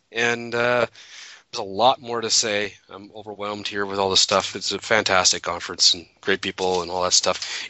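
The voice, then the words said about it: Hoarse, failing voice. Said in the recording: “I'm losing my voice, ... I had serious allergies or a cold.”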